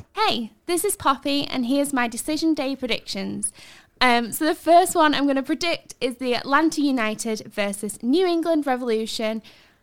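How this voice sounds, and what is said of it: Put-on posh English accent. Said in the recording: “What's with the posh voice? ... She's a northerner ... she's from Yorkshire ... I think she's putting it on.”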